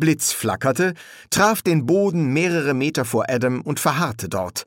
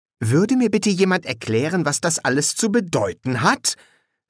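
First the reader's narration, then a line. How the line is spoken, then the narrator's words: Stern question. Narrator (German): fragte Anathema streng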